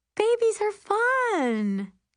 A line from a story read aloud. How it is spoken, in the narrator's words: Jennifer promises in her chirpiest voice